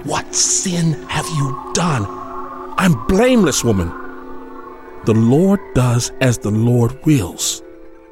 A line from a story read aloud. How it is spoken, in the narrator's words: she hissed